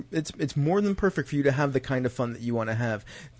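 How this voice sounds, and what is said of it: Angry, heated speaking voice. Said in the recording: “you can hear it in my voice that I am angry about this in some way, shape, or form”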